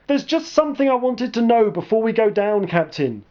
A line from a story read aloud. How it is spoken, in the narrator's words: yelled over the alarm and sound of rushing water